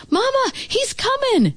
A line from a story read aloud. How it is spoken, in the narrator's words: shouted Derek